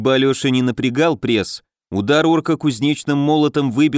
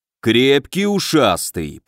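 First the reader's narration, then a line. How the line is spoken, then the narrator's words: Deep booming orc voice. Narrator (Russian): прогудел орк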